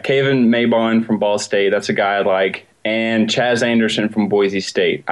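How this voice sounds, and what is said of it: Southern American accent. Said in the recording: “it's my southern accent.”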